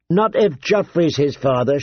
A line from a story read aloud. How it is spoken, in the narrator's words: said